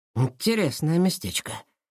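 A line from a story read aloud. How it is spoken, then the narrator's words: Muttered. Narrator (Russian): пробормотал он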